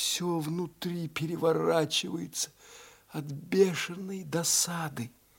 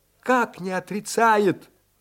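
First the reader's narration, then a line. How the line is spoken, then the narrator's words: Vexed exclamation. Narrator (Russian): воскликнула, позволив возобладать досаде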